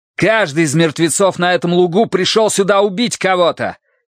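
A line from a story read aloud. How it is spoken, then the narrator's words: Breaking into a shout. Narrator (Russian): не выдержав, закричал Тай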